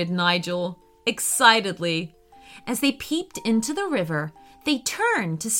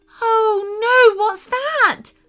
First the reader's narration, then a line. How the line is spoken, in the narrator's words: screamed Sophia